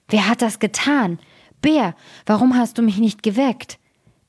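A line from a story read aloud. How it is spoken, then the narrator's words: Terrible roaring shout. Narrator (German): fing er an, fürchterlich zu brüllen und rief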